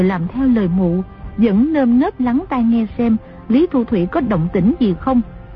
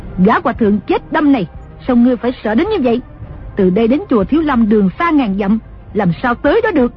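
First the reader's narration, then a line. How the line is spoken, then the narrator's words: Angry. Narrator (Vietnamese): Đồng mổ tức giận nói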